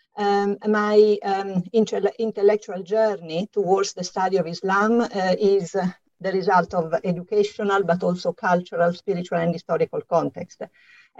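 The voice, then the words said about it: Slight Italian accent. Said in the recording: “as you can hear from my slight accent, I'm Italian,”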